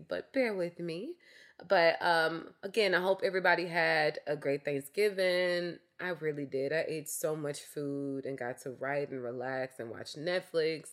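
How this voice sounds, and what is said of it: Raspy voice with a cough. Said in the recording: “I have a cough, so I'm going to be clearing my throat. I know my voice is a little raspy”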